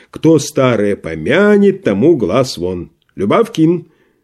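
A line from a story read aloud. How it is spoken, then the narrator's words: Sudden loud shout. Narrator (Russian): вдруг крикнул он так громко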